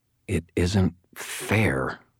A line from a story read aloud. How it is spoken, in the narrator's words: I growled